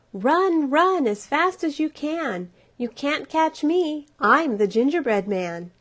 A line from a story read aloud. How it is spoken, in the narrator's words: he shouted back at them